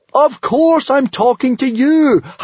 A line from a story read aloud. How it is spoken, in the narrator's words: howled Hiccup